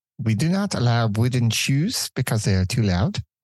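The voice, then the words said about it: Bad put-on Dutch accent. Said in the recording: “worst Dutch impression.”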